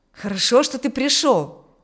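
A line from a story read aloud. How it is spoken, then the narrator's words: Exclamation. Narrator (Russian): воскликнул Аурелий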